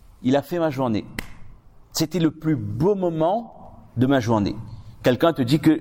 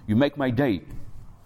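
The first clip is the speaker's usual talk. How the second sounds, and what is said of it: English phrase in Creole accent. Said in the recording (French): “Avec l'accent créole, par contre.”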